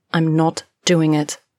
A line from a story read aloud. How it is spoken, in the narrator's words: Mercy says, firmly